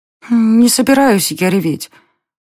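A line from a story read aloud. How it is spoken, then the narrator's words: Sobbing. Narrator (Russian): всхлипнула Даша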